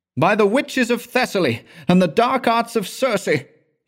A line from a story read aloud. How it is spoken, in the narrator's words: he exclaimed with foaming mouth